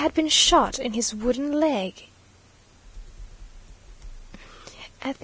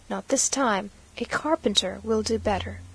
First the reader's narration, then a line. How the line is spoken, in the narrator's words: said to her very coolly